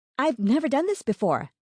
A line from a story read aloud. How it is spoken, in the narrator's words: she blurted out